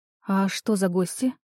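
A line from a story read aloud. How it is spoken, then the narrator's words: Anxious voice. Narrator (Russian): Говорю тревожным голосом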